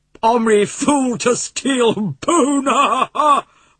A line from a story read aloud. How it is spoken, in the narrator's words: roared Little Bull, laughing